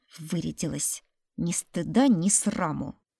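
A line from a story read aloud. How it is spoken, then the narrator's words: Grumbled aside, unsure. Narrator (Russian): Проворчала боярыня в стороночку, но как-то неуверенно, что ли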